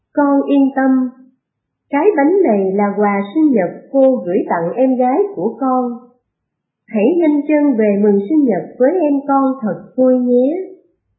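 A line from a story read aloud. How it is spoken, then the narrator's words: Gentle, kind woman. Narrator (Vietnamese): Cô chủ tiệm bánh mỉm cười hiền lành, dịu dàng nói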